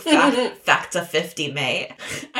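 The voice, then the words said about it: Poor put-on British accent. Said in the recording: “I'm so sorry for the British accent. ... I'm so bad at accents”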